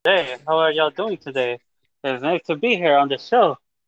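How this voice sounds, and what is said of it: Put-on Latin accent. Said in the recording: “This is my Latin accent.”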